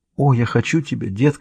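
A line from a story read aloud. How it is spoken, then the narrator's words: Whisper. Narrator (Russian): прошептала она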